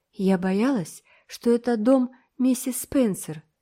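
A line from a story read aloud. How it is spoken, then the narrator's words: Sad. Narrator (Russian): сказала Энн грустно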